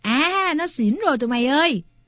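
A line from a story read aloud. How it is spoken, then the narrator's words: Gleeful exclamation. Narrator (Vietnamese): Lâm Quắn reo lên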